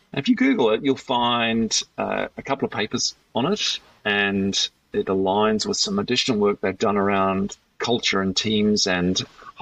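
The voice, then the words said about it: New Zealand accent. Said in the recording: “Kiwi accent coming out. That's B-E-T, a gamble, not bit”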